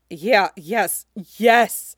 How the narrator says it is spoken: she groans

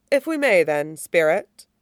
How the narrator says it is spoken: he said calmly

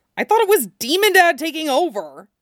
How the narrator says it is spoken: he yelped

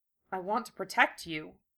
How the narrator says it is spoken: Lee mumbled

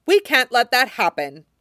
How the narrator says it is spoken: Joffrey snapped

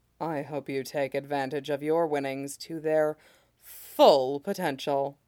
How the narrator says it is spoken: says haughtily

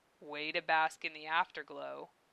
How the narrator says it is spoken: Dave said dryly

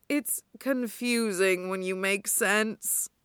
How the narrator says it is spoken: Hana moans

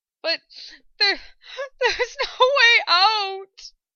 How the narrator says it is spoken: she managed between sobs, her body trembling with crippling fear

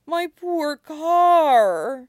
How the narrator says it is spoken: he moans

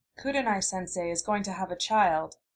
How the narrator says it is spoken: she said softly

